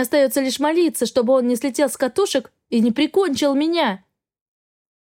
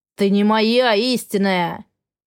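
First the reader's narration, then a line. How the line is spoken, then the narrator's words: Growling. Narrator (Russian): прорычал он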